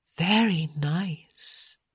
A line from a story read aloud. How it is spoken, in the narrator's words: she purred